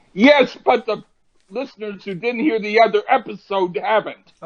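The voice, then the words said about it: Yelling, raised voice. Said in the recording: “I'm not yelling at you for anger. I'm yelling at you”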